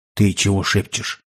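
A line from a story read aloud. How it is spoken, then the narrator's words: Quiet question, imitating host. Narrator (Russian): Поддаваясь примеру хозяина дома, тихо поинтересовался Петр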